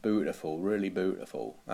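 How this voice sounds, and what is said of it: Broad Norfolk accent. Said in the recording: “How does a broad Norfolk accent go? ... It's just kind of a broad, wide... It's just like Bernard Matthews, isn't it?”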